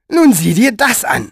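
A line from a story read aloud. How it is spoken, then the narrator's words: Shouting. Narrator (German): schrie Elinor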